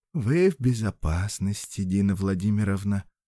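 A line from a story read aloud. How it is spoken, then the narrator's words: Gentle female voice. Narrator (Russian): ласково произнес смутно знакомый женский голос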